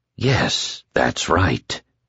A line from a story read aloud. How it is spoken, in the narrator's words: he said so softly that no one but Lloyd and Larry Underwood heard